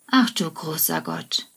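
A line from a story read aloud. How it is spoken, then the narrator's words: Sighing. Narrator (German): seufzt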